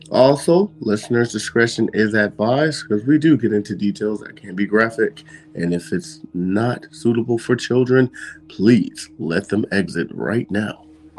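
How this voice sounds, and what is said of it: Polished radio announcer voice. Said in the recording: “That's my radio voice.”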